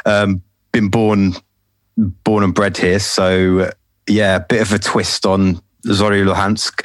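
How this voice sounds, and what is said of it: London accent. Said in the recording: “I'm from London, as uh, you probably tell from my accent.”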